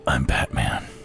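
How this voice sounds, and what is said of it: Gravelly Batman character voice. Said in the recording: “you got to do the Batman voice”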